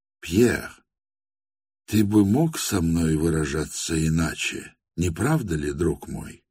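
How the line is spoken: Very quiet. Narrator (Russian): Совсем даже тихо промолвил Степан Трофимович

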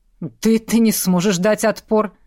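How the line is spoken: Scoffing. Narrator (Russian): хмыкнул он

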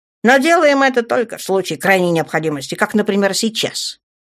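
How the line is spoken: Snorting. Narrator (Russian): Женщина фыркнула

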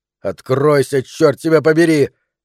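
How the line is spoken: Shouted. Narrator (Russian): крикнул он

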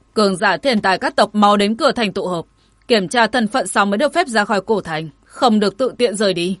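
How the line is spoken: Loud shout. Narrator (Vietnamese): Nhật Nguyệt lớn tiếng quát

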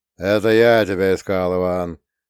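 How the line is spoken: Grumbled with slight accent. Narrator (Russian): пробурчал Тахмасиф Гасанович, подпуская в речь легкий акцент

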